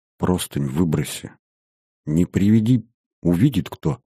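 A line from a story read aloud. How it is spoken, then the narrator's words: Very quiet. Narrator (Russian): тихо-тихо сказала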